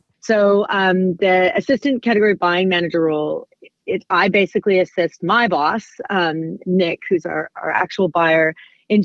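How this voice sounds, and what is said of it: Non-local accent. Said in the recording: “you're clearly not from these parts, originally judging by your accent.”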